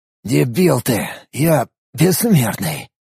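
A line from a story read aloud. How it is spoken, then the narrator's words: Hissed. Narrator (Russian): Прошипел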